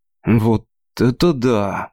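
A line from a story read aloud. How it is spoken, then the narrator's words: Breathless exclamation. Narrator (Russian): выдохнул Крис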